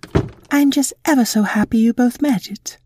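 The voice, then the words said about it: Fancy put-on posh accent. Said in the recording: “You can drop the accent ... you're talking like super-duper fancy ... it's just the way that you say it”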